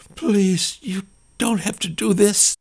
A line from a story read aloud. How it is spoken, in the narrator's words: Claire begged